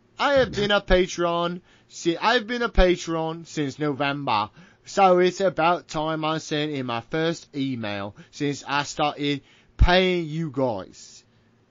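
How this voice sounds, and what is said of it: Put-on English accent. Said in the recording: “English accent required here.”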